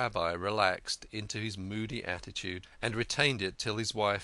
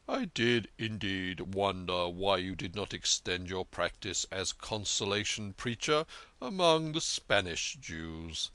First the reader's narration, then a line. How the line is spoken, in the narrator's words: replied Manasseh gravely